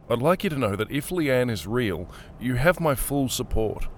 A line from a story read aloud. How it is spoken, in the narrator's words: mumbled